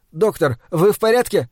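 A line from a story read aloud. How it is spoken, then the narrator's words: Panicked cry. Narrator (Russian): в панике, вскрикнув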